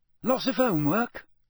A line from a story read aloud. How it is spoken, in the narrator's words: said Hermione brightly